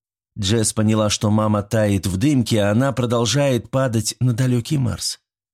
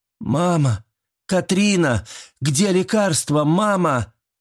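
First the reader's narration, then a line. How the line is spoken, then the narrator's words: Panicked screaming. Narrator (Russian): закричала она, и паника начала овладевать ей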